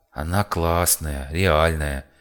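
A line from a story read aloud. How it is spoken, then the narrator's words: Lazy mumble. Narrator (Russian): лениво пробормотал Ересь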